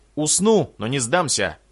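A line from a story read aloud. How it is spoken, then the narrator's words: Shout. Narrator (Russian): выкрикнул генерал Хаоса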